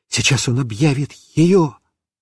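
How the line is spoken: Whisper. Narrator (Russian): я шептал папе

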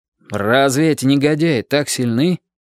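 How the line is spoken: Plain. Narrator (Russian): спросил Дик

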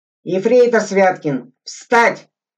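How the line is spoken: Shouted command. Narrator (Russian): крикнул Игорь

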